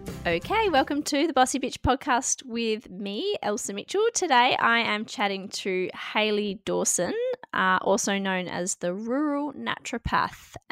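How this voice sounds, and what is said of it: Congested, husky voice from a cold. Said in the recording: “I've got a bit of a cold, so I'm going to have a bit of a sexy voice”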